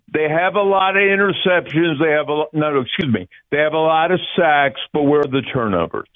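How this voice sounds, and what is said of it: Imitates another person's voice. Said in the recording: “my impersonation of Conklin of Reuben Franks ... It's very good ... that sounds Reuben Frankish”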